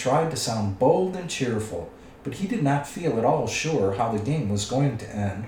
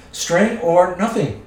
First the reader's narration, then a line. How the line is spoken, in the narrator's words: shrieked Gollum